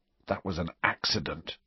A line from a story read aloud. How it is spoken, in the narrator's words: he whispered miserably